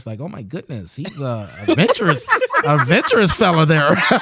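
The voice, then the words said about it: Put-on white-sounding voice. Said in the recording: “I had to put on my white voice”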